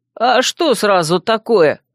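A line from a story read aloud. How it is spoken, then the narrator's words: Offended reply. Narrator (Russian): обиженно отозвался Вемут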